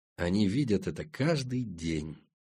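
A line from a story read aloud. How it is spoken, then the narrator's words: Quiet. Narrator (Russian): тихо сказал Семен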